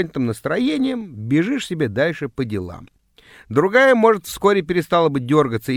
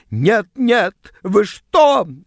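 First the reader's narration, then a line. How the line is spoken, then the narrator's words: Shrieking. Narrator (Russian): взвизгнула она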